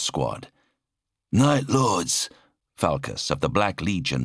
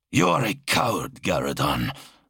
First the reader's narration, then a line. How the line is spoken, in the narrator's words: Zal snarled